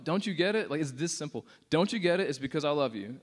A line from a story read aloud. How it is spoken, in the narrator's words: passionately yelling out